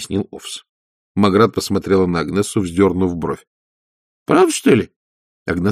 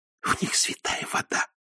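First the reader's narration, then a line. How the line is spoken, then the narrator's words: Whisper. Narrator (Russian): прошептала Агнесса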